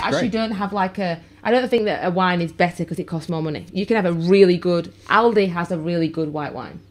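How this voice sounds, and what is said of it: English Yorkshire accent. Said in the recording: “So I speak with my Yorkshire accent to the kids.”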